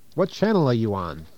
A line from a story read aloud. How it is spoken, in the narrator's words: exclaims one